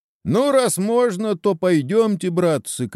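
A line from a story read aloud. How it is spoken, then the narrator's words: Shout. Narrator (Russian): крикнул Чеба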